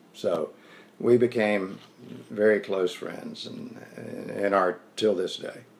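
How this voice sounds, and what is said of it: Southern US accent. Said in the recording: “he notices my southern accent ... I was from North Carolina.”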